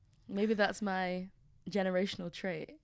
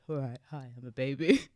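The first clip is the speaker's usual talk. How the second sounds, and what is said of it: Very low deep baby voice. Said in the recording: “They might have a quite low voice, yeah. The lowest of all.”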